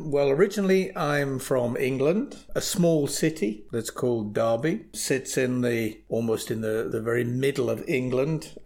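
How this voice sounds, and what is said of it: British English accent. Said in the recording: “say it with a British accent”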